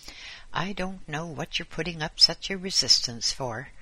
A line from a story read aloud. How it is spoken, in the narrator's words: said the voice, irritably